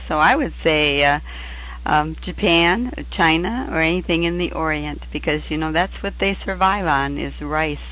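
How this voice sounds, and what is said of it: Strained, fading voice. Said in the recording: “losing my voice ... I promise to have a voice by this”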